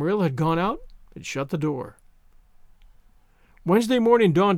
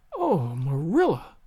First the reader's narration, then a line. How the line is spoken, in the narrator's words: gasped Anne